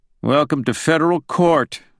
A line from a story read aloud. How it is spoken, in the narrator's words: the judge said sarcastically